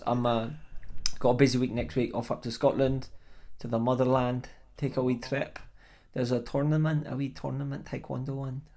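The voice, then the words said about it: Scottish accent. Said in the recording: “I'm going to drop out my Scottish accent now.”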